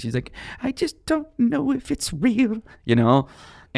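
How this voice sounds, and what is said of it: Imitates an old woman's voice. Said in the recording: “that was my imitation of an old”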